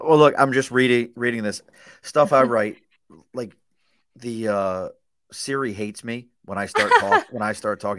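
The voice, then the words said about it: Subdued Baltimore accent. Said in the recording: “my Baltimore accent is very subdued now... This is not an Albany accent. This is Baltimore... All T's turn into D's.”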